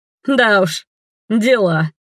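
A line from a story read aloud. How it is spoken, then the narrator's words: Friend's short laugh. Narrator (Russian): хохотнул друг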